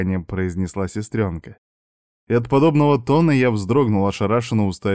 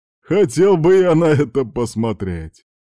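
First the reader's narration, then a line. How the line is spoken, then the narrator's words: Father laughing loudly. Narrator (Russian): хохотал отец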